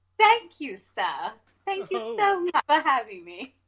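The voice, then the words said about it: Posh old-fashioned English accent. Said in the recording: “That's a little bit of Downton Abbey, isn't it?”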